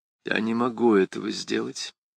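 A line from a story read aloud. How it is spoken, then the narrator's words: Lifeless voice. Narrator (Russian): безжизненным голосом ответила Крис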